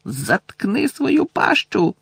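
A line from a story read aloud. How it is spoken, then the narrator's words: Shouting. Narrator (Ukrainian): крикнув Рон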